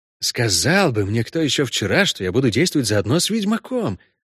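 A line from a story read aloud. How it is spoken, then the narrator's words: Low voice. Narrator (Russian): промолвил Матадор вполголоса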